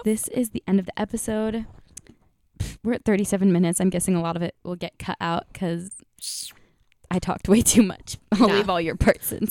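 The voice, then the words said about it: Sore, lower-than-usual voice. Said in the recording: “my voice is also like a little bit sore lower than it usually is.”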